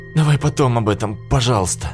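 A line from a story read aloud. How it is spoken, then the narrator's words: Whining. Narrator (Russian): захныкал я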